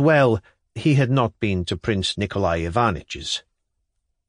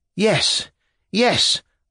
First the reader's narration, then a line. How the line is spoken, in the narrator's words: I cried suddenly, as though coming to life again